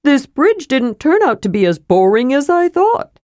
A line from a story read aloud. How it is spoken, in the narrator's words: said Tasselhoff cheerfully